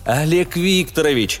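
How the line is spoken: Joyful exclamation. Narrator (Russian): радостно восклицаю я

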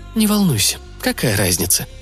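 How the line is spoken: Quiet. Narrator (Russian): тихо сказала я

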